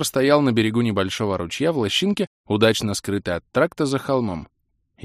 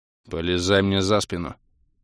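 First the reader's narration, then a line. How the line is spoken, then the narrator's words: Curt command. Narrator (Russian): отрывисто скомандовал Кандирт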